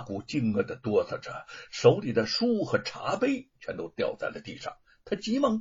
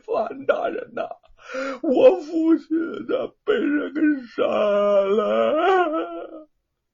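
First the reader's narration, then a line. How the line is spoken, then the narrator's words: Loud wailing. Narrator (Chinese): 罗庞哭的是惊天动地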